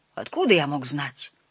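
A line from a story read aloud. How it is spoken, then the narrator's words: Sullen grumble. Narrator (Russian): буркнул в ответ бедный Солтерс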